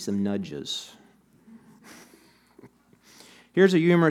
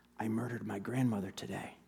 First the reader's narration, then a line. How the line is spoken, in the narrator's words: he murmured